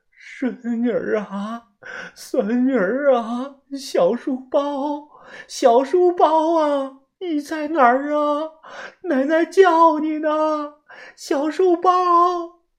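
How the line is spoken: Crying out. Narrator (Chinese): 她边找边哭喊着

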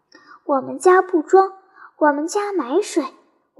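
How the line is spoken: Old woman sighing. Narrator (Chinese): 云婆婆叹息道

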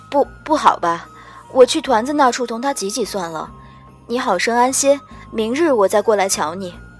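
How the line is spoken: Embarrassed dry cough. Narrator (Chinese): 我耳根子红了一红，干咳道

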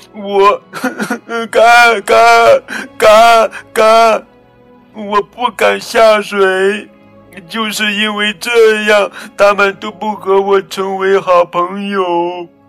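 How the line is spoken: Crying duckling. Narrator (Chinese): 小鸭子哭着说

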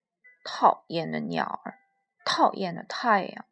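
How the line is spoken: Muttering. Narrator (Chinese): 他嘟囔着

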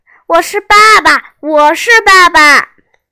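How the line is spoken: Shouting. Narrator (Chinese): 我大叫着

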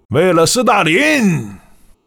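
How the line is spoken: Hoarse exhausted shout. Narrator (Chinese): 他强撑着，嘶哑地喊了一句

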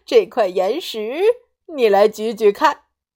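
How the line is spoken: Smiling. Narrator (Chinese): 狗欢叔叔微笑着说

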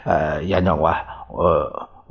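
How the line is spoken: Stuttering. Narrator (Chinese): 结结巴巴的说

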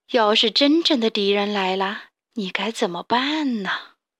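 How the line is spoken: Sighing. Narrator (Chinese): 负鼠妈妈叹了口气说

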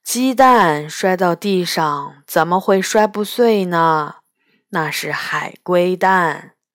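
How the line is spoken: Slow, sighing. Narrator (Chinese): 霸下慢悠悠地摇摇头，叹了一口气，说

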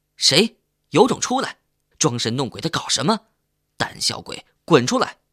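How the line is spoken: Angry group shouting. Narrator (Chinese): 我们一起的大声怒骂

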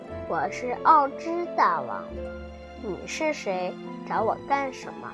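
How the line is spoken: Gentler than expected. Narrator (Chinese): 这声音听起来比德罗西预想的要温柔一些

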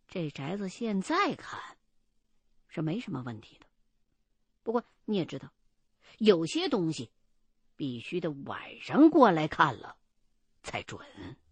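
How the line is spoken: Hushed, lowered voice. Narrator (Chinese): 秦恒瞄了一眼，见男主人还在外间抽烟呢，就压低了嗓子告诉我说

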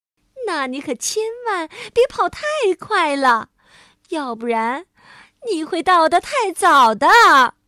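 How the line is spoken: Gloating mocking taunt. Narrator (Chinese): 蜘蛛发发幸灾乐祸的嘲笑道

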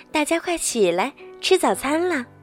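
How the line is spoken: Soft calling. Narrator (Chinese): 她轻声召唤

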